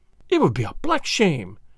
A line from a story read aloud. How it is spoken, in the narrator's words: cried, flushing high